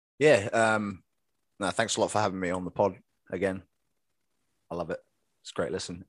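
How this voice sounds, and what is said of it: English accent. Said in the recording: “From England, obviously, for you keen listeners out there, you probably picked up the accent.”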